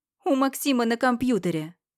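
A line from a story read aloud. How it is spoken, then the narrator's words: Loud, for all to hear. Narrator (Russian): Громко, во всеуслышание говорю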